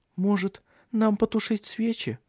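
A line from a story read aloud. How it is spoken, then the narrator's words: Timid babbling. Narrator (Russian): робко пролепетала она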